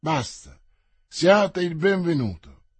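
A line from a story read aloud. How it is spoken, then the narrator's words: Languid tone. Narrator (Italian): continuò in tono languido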